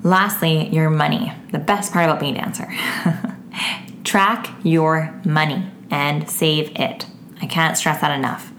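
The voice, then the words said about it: Gravelly, worn-out voice. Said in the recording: “my voice is getting a little extra gravelly. I've been talking so much lately that my voice is just, it's getting to its end”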